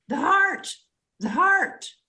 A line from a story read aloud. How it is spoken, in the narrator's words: She was hollering